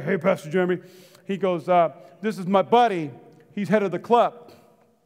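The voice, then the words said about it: Imitates another person's voice. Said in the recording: “This is my best impersonation of my friend”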